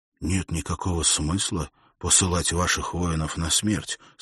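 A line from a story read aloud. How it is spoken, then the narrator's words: Quiet, private. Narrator (Russian): сказал Уилл тихо, так, чтобы его слышал только военачальник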